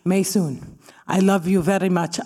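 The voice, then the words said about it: Imitates another person's accent. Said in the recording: “I believe this is Fatma's accent, but she could be from Peru.”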